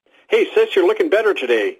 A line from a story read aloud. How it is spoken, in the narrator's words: exclaimed a paunchy man